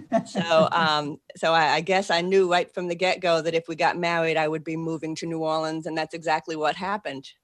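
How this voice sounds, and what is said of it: Boston accent. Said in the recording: “I still have a Boston accent.”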